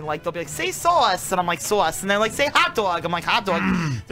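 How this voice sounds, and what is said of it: Strong New Jersey accent. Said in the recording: “my accent started coming out ... Very bad. You don't realize it because you're from Jersey.”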